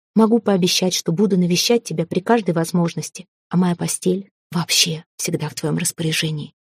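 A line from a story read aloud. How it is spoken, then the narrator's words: Whispered addition. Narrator (Russian): добавил шепотом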